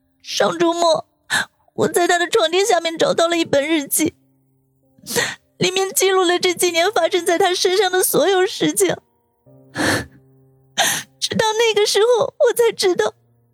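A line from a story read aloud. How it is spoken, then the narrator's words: Choked, tearful voice. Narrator (Chinese): 舒云擦了擦眼角的泪珠，哽咽的说道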